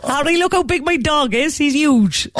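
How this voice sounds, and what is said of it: Put-on Cork accent. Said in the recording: “My one, sadly, will have to be a Cork accent because that's all I can do.”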